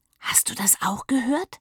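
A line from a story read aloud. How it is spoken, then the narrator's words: Whisper. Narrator (German): flüsterte Papa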